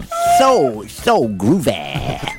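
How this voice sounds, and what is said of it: Put-on accent, disco style. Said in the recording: “Can you do the rest of the show in that accent, please?”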